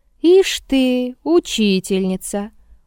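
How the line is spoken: Amused drawl. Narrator (Russian): Урядник протянул смешливо

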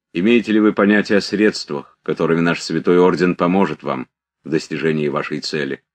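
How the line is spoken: Calm, quick. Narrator (Russian): сказал ритор спокойно и быстро

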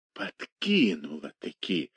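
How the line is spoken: Spiteful, through clenched teeth. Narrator (Russian): со злобой процедил он сквозь зубы

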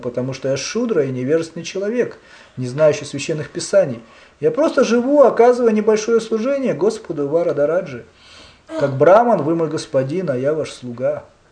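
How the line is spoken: Gentle reply. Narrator (Russian): мягко ответил Канчипурна

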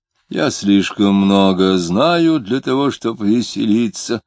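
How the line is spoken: Gloomy, disguised voice. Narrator (Russian): ответил Клим, изменив голос и мрачно

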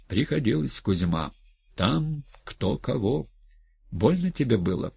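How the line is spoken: Quiet question. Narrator (Russian): тихонько спросил Кузьма

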